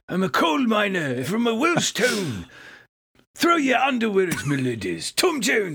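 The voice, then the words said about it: Imitates another person's voice. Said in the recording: “my Tom Jones impersonation”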